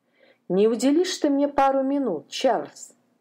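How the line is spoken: Plain. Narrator (Russian): спросил его Визерби

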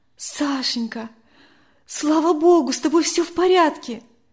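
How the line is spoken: Relieved exclamation. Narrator (Russian): воскликнула Надя

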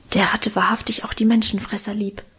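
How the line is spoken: Murmuring. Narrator (German): raunte mir Karl zu

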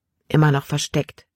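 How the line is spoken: Plain answer. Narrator (German): antwortete

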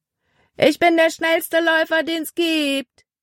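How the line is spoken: Calling out to them. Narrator (German): rief er ihnen zu

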